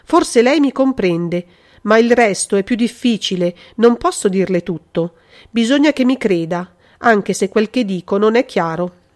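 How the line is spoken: Exclaimed. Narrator (Italian): esclamò Maria Giovanna

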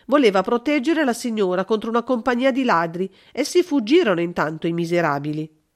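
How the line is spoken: Woman neighbor exclaims. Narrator (Italian): esclamò una comare

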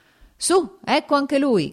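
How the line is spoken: Commander shouting. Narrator (Italian): gridò il comandante del reggimento

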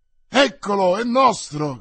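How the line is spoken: Group shouting. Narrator (Italian): gridarono i sopraggiunti

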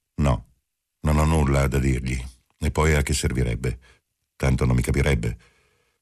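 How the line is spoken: Cold voice. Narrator (Italian): Marcello disse con voce fredda

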